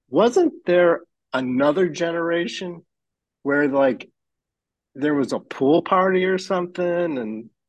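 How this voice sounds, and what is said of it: Rising pitch, excited voice. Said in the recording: “My voice is going up because I'm just getting such a kick out of this.”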